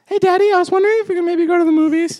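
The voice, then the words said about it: Convincing impression of a son. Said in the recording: “That's a pretty good impression ... You sound just like him.”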